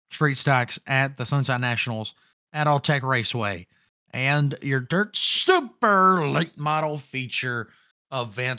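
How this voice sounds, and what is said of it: Slightly hoarse voice. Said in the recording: “I know I don't sound as good as I normally do. That's because my voice is still a little hoarse.”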